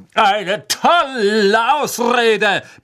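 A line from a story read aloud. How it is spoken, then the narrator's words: Roaring. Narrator (German): brüllte Sir Cadogan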